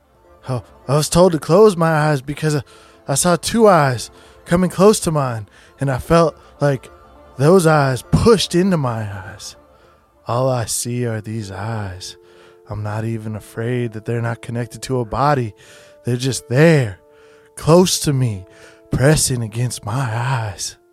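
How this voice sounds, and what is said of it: Character voice with country accent. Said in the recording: “do a voice ... you always have a country accent ... sound like Barney”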